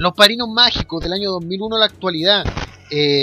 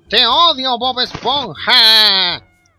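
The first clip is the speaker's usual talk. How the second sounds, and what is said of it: Imitates a cartoon character's voice. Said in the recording (Spanish): “esa es mi imitación de Calamardo, lo mejor que la puedo hacer, lo siento”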